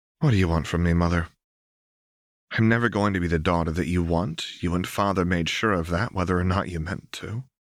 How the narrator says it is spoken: Lux lowered her teacup, sighed, and said

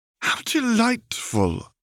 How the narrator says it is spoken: exclaimed Mrs

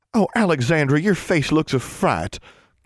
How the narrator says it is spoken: Constance exclaimed

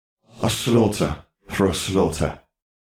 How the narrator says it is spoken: they hissed

